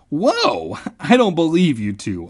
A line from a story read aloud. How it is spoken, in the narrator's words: I exclaimed